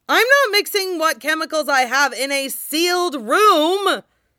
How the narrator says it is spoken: Shang Chenghua shouts

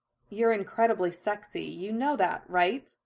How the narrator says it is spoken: she murmured against Hinata's shoulder

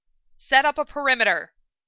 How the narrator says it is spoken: Hawkeye barked

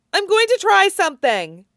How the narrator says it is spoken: Meryl cried

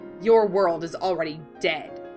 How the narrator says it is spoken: spat

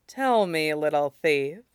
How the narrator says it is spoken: she murmured, like water running under ice

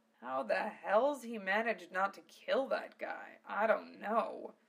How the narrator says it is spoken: Val muttered

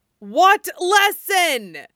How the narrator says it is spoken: He shouted

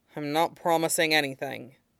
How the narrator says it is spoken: Aizawa grunted

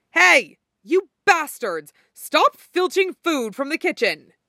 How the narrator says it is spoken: shouted to no one in particular

